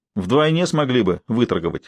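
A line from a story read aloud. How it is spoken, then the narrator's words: Snorting. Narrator (Russian): хмыкнул Норман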